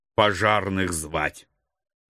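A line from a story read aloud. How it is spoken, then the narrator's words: Grumbled. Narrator (Russian): буркнул я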